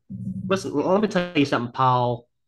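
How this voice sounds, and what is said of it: Put-on Southern US accent. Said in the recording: “the perfect name for a southern accent too, because they all kind of say it like "Paul."”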